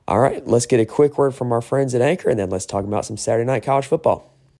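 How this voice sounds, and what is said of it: Worn, sick-sounding voice. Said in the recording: “apologize for my voice. It's not where it usually is... I did a lot of yelling. So the voice is not quite there where it always is... I sound like I'm sick... it doesn't sound as good as it usually does”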